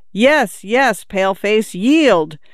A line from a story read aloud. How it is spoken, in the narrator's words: She burst into a shout of laughter and could not speak